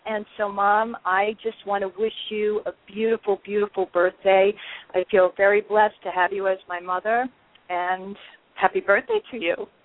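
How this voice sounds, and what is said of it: Choked up, emotional voice. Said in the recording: “I got all choked up.”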